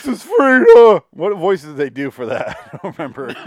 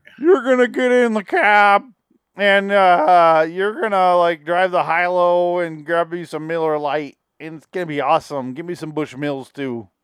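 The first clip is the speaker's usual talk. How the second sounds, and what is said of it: Weird, silly character voice. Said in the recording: “it was like a weird, silly voice”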